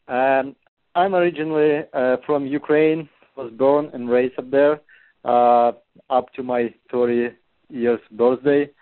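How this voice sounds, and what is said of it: Ukrainian-accented English. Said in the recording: “My accent? ... your accent?”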